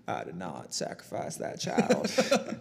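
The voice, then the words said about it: Imitates another person's voice. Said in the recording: “do your Clinton impression.”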